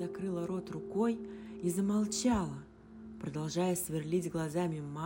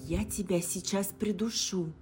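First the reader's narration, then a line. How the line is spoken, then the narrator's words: Hissed threat. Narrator (Russian): прошипела Алиса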